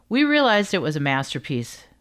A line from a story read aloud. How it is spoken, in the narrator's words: Kander says, laughing